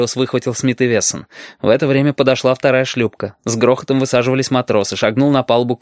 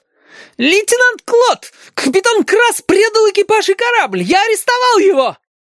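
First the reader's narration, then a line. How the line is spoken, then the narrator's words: Near-shrieking. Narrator (Russian): Хариус почти визжал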